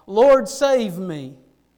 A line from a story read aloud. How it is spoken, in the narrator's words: beginning to sink, he cried out